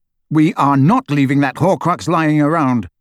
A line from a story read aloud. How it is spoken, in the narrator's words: Harry stated firmly